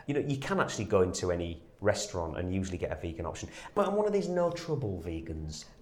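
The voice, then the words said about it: Northern English male accent. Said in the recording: “You sound like you're a northern male. I can tell by your accent.”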